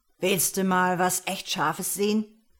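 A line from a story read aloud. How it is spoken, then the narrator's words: Calling from another room. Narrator (German): rief mir Bruce vom Wohnzimmer aus zu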